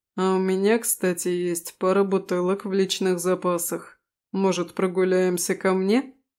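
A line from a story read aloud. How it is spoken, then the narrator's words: Laughing. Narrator (Russian): Рассмеялась я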